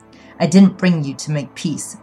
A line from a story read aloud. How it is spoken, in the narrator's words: Chin growled